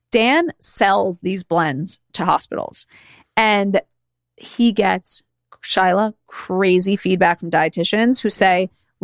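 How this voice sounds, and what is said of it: Speaker's noticeable accent. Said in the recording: “because of my accent”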